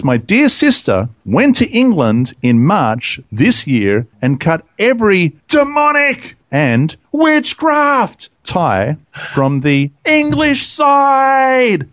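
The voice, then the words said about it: Yelling while reading aloud. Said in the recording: “That's in capitals. That's why I'm yelling.”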